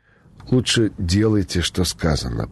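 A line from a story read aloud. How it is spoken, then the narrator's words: Young, unsure, plaintive threat. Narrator (Russian): пригрозил юный водитель неуверенно жалобным голосом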